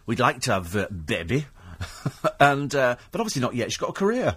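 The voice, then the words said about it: Imitates another person's accent. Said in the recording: “because she talks like that ... That's a great accent.”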